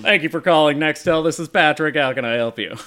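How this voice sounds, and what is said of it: Imitates another person's voice. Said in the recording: “my best Patrick Warburton impression I possibly can”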